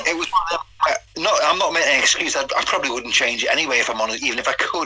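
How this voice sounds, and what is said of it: Northern English accent. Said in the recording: “you have got a northern accent”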